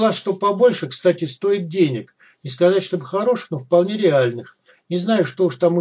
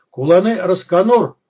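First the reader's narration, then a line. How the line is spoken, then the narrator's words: Barked close by. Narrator (Russian): рявкнули у меня над духом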